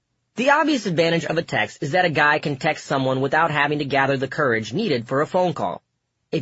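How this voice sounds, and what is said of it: Usual voice. Nothing is said of it.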